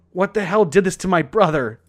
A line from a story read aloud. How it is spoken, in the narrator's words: she sobbed